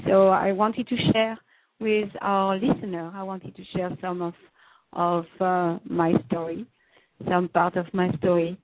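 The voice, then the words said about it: French accent in English. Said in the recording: “with my French accent ... as you can hear, I'm from France”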